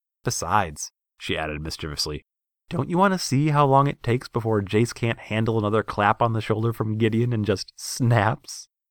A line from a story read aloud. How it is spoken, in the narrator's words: Nissa laughed again